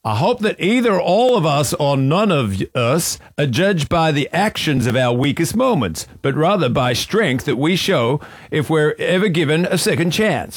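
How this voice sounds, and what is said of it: Imitates another person's accent. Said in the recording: “Can you say it with his accent? It sounds better. ... I don't know if I can read this and do the accent.”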